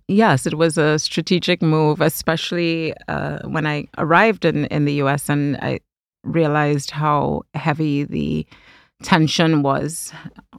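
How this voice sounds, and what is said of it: Caribbean accent, not American-sounding. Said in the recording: “because you've got a Caribbean accent. You don't sound American ... you kept your accent”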